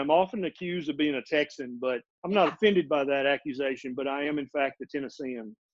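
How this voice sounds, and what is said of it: Tennessee Southern US accent. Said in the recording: “your sexy accent ... I was born and raised in Middle Tennessee”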